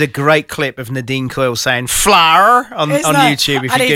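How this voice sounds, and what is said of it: Usual voice. Nothing is said of it.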